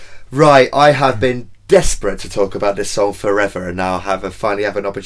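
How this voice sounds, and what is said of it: Usual voice. Nothing is said of it.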